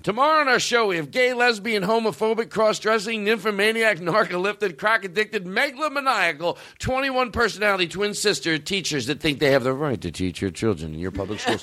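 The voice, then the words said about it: Imitates another person's voice. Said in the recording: “Phil Donahue impersonation. ... Oh, it's perfect. It's perfect.”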